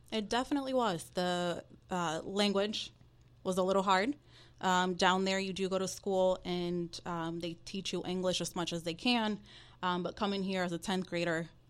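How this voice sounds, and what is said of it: Spanish-accented English. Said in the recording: “grew up in Dominican Republic, so you can hear the accent, bilingual, I speak Spanish”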